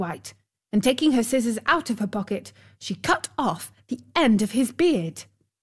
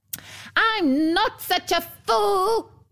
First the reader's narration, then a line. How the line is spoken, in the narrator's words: screamed the dwarf